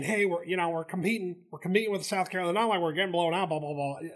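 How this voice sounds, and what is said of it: Imitates another person's voice and accent. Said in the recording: “my accent, my Jimbo? ... it wasn't on a great Jimbo.”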